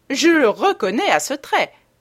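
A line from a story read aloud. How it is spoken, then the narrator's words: Duchess exclaiming. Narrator (French): s'exclama la duchesse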